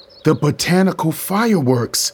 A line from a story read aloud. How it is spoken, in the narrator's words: I blurted